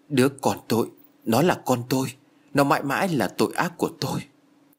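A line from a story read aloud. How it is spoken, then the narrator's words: Pale, trembling voice. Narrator (Vietnamese): Sắc mặt của Béc Na tái nhợt với giọng run rẩy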